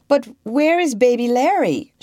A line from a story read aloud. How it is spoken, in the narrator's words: she cried